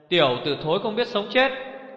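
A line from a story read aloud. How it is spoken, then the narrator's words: Angry shout. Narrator (Vietnamese): Một tiếng quát đầy giận dữ vang lên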